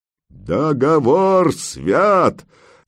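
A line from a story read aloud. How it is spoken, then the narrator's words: Many voices barking. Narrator (Russian): рявкнули десятки глоток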